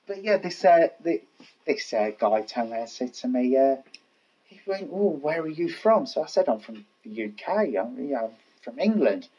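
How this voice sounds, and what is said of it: Cockney accent. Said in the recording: “I've got a better Cockney accent, to be honest. it's not put on.”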